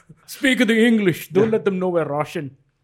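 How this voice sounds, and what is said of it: Bad put-on Russian accent. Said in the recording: “That's a really bad Russian accent.”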